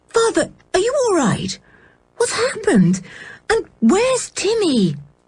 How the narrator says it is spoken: said George urgently

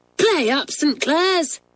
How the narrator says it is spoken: cried Belinda

